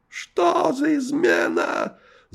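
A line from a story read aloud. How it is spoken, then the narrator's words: Wild yell in strange voice. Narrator (Russian): заорал не своим голосом Шемяка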